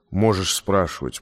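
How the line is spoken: Grumbling. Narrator (Russian): проворчал он

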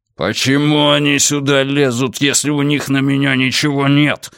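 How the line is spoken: Barked. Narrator (Russian): рявкнул он

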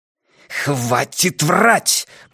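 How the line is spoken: Hiss. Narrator (Russian): прошипел Ван Эк

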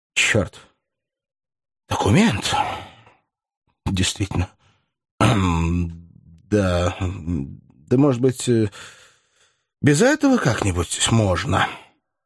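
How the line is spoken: Uncertain and melancholy. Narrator (Russian): Голос его звучал неуверенно и тоскливо

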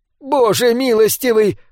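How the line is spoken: Screaming. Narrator (Russian): закричала Райчес

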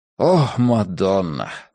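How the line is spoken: Breathless exhale. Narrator (Russian): выдохнул он

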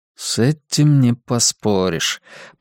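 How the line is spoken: Mumbled. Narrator (Russian): пробормотал Дезмонд

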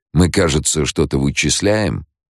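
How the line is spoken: Mocking question. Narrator (Russian): насмешливо поинтересовался Лето

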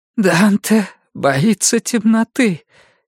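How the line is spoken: Hoarse voice. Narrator (Russian): Пия сама услышала, какой у нее хриплый голос

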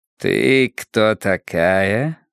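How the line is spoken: Gentle purring question. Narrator (Russian): спросил он без агрессии, как будто мурлыка

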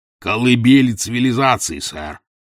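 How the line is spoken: Grumble. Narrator (Russian): проворчал Челленджер

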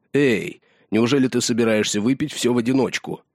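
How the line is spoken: Exclaimed. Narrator (Russian): Халдор воскликнул

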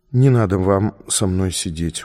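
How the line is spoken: Tired. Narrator (Russian): устало сказала она

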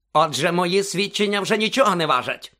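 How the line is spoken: Barking. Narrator (Ukrainian): гаркнув Снейп

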